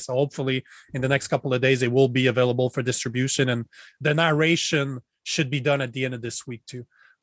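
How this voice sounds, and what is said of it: French-accented English. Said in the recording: “You got that great accent. ... There's certain words that I pronounce in a French way.”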